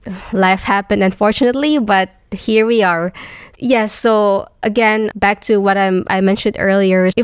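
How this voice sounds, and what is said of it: Sick, flu-affected voice. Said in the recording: “excuse my voice right now. I'm actually having a flu. ... I'm a bit sick right now”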